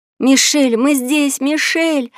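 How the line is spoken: Shouting. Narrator (Russian): закричала

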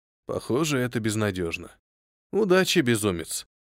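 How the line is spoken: Sighing. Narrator (Russian): вздохнул я

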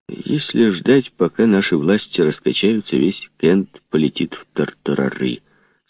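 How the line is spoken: Plain. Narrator (Russian): сказал Костер

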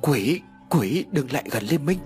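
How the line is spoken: Teeth-chattering stammering scream. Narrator (Vietnamese): Hai hàm răng vẫn không ngừng đánh vào nhau lập cập, hét lên lắp bắp

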